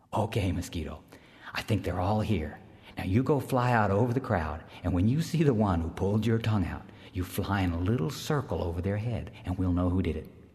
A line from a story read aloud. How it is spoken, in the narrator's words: Earthmaker whispered to Mosquito